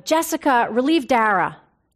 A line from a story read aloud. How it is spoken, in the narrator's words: Suddenly, the resident in charge shouted